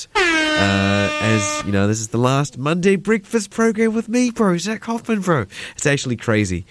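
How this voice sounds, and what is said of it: Imitated character voice. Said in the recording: “that was my impression of Max from Bunchy's Big Score. He kind of talks like this.”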